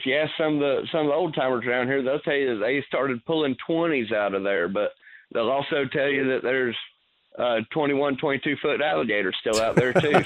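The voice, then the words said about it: Southern twang, hint of Georgia. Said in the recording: “that nice accent of yours ... I felt, felt, like a little touch of Georgia in that in that that twang you got there”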